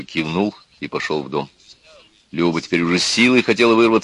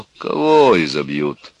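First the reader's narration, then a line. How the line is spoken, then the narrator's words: Calm deep bass. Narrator (Russian): спокойно басил Петро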